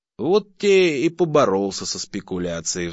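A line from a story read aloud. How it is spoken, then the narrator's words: Sigh. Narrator (Russian): вздохнул Охлопьев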